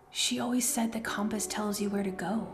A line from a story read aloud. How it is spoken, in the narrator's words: Jem whispered